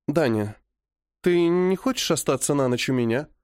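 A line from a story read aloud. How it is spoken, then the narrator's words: Timid question. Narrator (Russian): робко спрашивает блондинка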